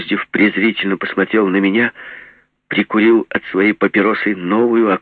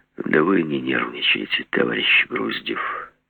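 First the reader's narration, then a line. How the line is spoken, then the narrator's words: Soft, heartfelt. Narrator (Russian): сказал он мягко, почти задушевно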